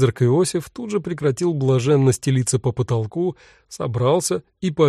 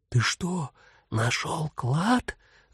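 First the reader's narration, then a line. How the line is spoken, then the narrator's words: Conspiratorial whispered question. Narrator (Russian): Заговорщическим шепотом спросила она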